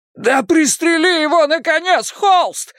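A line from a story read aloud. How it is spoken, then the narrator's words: Desperate howl. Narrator (Russian): взвыл Хейлс в отчаянии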